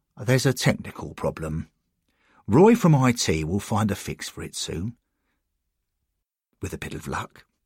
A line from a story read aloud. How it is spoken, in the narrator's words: Bill informed them calmly